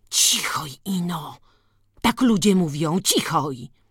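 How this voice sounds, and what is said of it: Fearful whisper. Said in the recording (Polish): “Szeptała lękliwie.”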